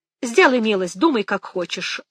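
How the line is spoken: Cold. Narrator (Russian): холодно сказала Мэгги

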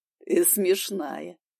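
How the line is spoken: Laughing young man. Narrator (Russian): рассмеялся парень

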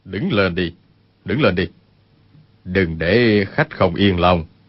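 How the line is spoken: Lowered voice. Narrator (Vietnamese): Nhất Tăng Đại Sư hạ giọng nói

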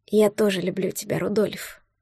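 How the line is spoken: Quiet. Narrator (Russian): тихо сказала она

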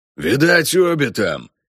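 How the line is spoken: Hoarse rasp. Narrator (Russian): хрипит первый

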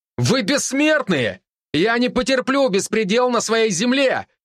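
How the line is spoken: Shouting even louder. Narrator (Russian): Еще громче выкрикнул я

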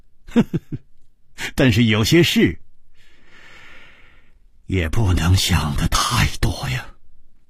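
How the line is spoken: Wry, bitter laugh. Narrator (Chinese): 楚留香苦笑着说

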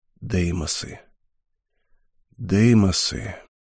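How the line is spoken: Muttering. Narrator (Russian): пробормотал он

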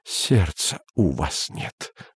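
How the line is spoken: Muttering. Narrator (Russian): бормотал он

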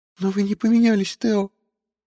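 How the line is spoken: Sobbing. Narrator (Russian): всхлипнула Фия

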